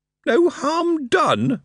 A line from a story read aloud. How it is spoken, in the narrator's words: Moist wailed